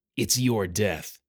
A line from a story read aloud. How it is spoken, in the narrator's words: He growled